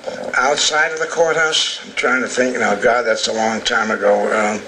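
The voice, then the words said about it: New Jersey accent. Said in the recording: “I'll never get rid of this New Jersey accent”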